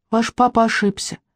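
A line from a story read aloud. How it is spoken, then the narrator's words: Soft objection, cricket. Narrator (Russian): мягко возразил сверчок Сима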